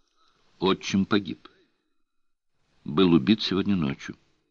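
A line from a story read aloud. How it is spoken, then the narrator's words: Very calm reply. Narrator (Russian): очень спокойно ответила она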